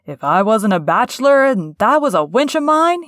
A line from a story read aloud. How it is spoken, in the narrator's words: cried